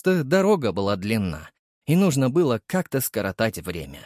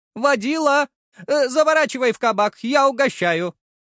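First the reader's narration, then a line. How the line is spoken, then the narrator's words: Hopeless female shout. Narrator (Russian): выкрикнула женщина без надежды на успех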